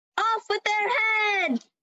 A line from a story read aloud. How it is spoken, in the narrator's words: the Queen of Hearts kept getting angry at the other players, yelling